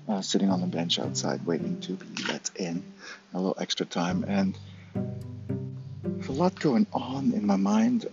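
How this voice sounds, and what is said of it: Whispering. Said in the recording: “I'm whispering a little bit”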